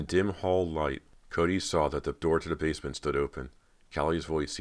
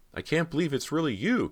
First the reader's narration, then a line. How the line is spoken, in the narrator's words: Cody cried, feeling her emotions swell